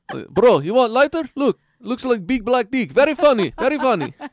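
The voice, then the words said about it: Thick Yugoslavian accent impression. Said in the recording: “In the thick Yugoslavian accent.”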